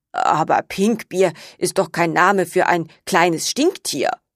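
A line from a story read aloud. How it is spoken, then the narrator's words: Murmuring. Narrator (German): murmelte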